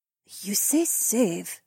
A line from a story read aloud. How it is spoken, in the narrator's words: Haywan whispered